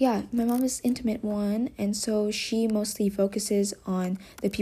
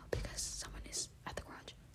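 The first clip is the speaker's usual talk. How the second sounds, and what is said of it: Whispering. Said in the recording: “I'm whispering”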